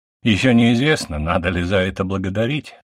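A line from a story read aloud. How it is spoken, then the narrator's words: Snort. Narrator (Russian): хмыкнул я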